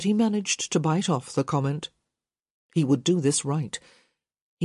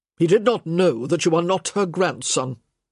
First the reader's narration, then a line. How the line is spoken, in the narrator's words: the Baron said sharply